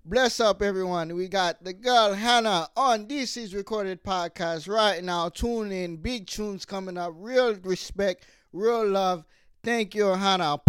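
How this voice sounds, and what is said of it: Put-on Jamaican accent. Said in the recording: “I'm going to do my own Jamaican accent.”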